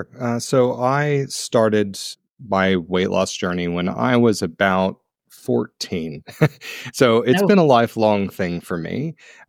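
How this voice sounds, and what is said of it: American accent. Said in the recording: “You can hear from my accent, I'm originally from the US.”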